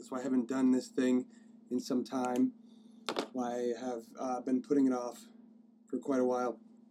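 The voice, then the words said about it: Hoarse voice from a cold. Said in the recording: “I am a little hoarse. I'm a little hoarse in the throat ... I've come down with a little bit of a cold”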